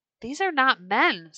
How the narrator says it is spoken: someone cried

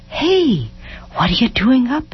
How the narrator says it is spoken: asked gently

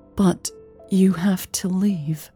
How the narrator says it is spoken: she said quietly

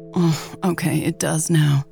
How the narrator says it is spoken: Lex groaned

